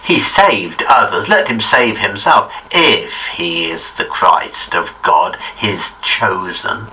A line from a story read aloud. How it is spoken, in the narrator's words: the rulers also scoffed at him, saying